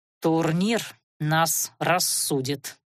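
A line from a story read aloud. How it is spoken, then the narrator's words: Through gritted teeth. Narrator (Russian): процедил тощий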